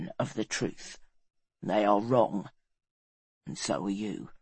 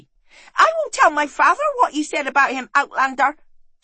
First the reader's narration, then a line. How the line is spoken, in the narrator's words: shouted the boy